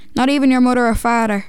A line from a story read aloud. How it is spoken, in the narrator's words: barked, nearly spitting out her false teeth